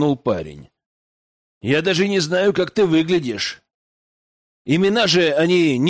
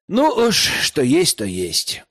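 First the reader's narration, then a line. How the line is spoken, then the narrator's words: Sighed. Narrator (Russian): вздохнул Герман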